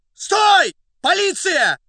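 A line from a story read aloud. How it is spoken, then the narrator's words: Hoarse agitated shout. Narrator (Russian): осипшим от волнения голосом крикнул Фондорин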